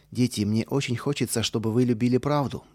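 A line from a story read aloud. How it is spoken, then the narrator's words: Plain. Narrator (Russian): сказала Мэри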